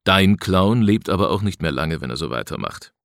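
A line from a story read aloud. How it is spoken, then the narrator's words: Sigh. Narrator (German): seufzte Siebels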